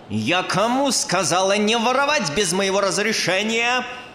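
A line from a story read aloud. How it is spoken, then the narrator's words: Angry bark. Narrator (Russian): рявкнула зло Манефа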